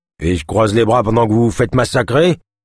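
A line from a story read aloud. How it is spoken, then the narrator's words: Trapper growling. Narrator (French): gronda le trappeur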